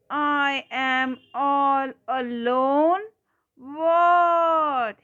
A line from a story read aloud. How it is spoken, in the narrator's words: screamed